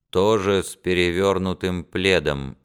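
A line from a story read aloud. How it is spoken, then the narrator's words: Muffled anxious reply. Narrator (Russian): отвечал Алан, также глухо и встревоженно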